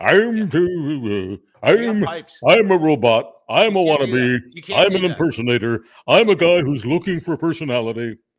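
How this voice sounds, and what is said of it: Mocking impersonation of an imitator. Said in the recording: “I love impersonating people who try to impersonate me.”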